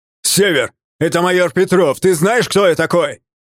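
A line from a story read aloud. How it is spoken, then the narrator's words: Shouting across hangar. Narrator (Russian): Крикнул на весь ангар представитель закона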